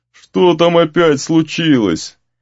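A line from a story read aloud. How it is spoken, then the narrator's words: Sleepy grumble. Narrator (Russian): сонное ворчание Гризли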